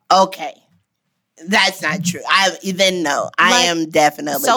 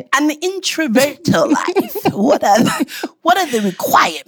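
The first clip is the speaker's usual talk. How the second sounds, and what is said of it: Put-on English accent. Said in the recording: “Can you say it with your English accent?”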